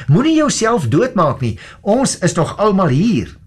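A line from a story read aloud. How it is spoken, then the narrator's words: Very loud shout. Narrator (Afrikaans): Maar Paulus het baie hard vir hom geskreeu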